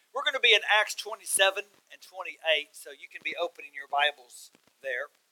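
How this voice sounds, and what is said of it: Texas accent. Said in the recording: “this is called a Texas accent ... I am speaking in Texan”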